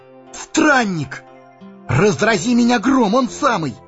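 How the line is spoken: Joyful exclamation. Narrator (Russian): Сэмми радостно воскликнул

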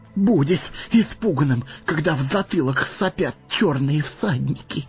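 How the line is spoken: Trembling voice. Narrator (Russian): проговорил Сэмми дрожащим голосом

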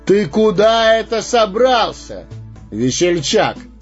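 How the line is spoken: Thunderous shout. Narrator (Russian): громовым голосом вскричал странник

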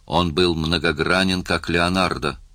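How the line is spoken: Plain. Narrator (Russian): сказал Йод

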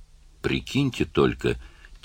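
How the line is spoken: Quiet. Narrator (Russian): тихо сказал Карл

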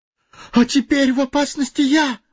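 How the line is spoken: Terrified exclamation. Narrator (Russian): в ужасе воскликнул Фродо

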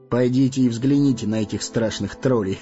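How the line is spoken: Chuckling. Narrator (Russian): Хохотнул странник

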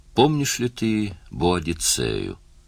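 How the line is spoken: Purring. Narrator (Russian): промурлыкала Лейла

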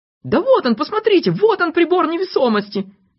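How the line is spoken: Doctor shouting. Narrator (Russian): закричал доктор Пилюлькин

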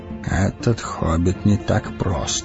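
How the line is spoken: Muttered. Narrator (Russian): пробормотал Гэндальф

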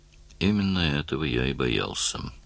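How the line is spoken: Gloomy. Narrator (Russian): мрачно заметил Даллас

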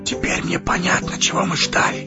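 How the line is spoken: Rapturous whisper. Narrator (Russian): Восторженно Фродо шепнул Гэндальфу

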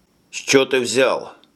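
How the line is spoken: Angry. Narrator (Russian): зло ответил Джим

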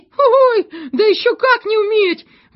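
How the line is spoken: Small exclamation. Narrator (Russian): воскликнул мизинчик

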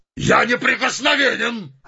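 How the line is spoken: Shout. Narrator (Russian): закричал он

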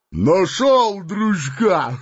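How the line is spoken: Coarse guffaw. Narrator (Russian): Грубо захохотал Бугай

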